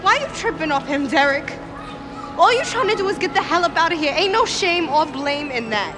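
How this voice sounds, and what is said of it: Unconvincing put-on accent. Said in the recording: “who had the worst accent? ... The accent is bad”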